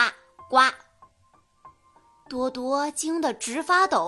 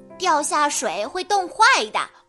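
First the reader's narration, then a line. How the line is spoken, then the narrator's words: Croaking frog cry. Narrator (Chinese): 青蛙大哥呱呱呱地叫着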